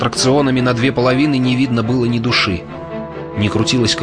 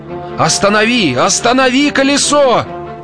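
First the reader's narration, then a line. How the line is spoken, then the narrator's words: Shouted. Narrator (Russian): закричал то ли Джозеф Пайки, то ли мистер Куджер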